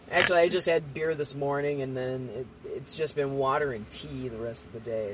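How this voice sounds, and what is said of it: Husky, sick-sounding voice. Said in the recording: “if you can't tell by my voice, I'm getting sick ... you've got a Lauren Bacall quality”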